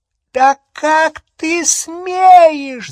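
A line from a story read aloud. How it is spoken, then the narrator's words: Shrill squeal. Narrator (Russian): запищала тетя Петунья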